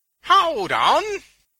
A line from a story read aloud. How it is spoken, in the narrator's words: Venus cried